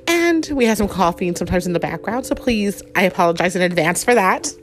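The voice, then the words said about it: Voice altered by flu. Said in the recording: “We are getting over the flu in our house, so my voice is a little bit different.”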